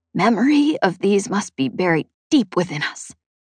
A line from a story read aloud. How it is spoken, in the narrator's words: Chet whispered